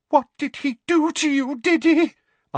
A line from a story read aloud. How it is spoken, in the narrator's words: Aunt Petunia said in a quavering voice